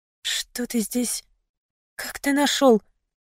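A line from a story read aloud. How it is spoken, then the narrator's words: Mumble. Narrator (Russian): пробормотала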